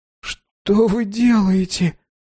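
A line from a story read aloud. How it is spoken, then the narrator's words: Shuddering moan. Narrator (Russian): простонал мальчик, содрогаясь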